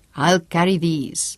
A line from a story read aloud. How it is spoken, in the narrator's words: chuckled